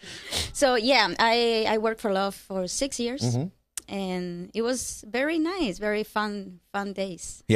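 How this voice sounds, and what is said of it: Cuban accent. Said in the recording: “I detect the accent from where are you? ... I'm from Cuba”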